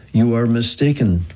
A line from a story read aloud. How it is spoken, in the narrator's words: replied Big Face